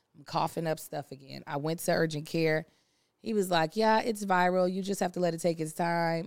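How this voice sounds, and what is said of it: Strained, hoarse voice. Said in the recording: “I am straining as if I just did a Broadway run ... I was just screaming at the top of my lungs. That's how my voice is straining.”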